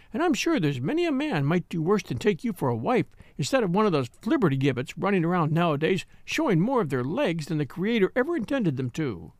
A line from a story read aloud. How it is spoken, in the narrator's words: said Miss Viner kindly